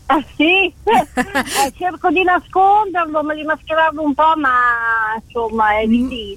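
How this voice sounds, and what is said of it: Slight regional Italian accent. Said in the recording (Italian): “Si sente un po' il tuo accento”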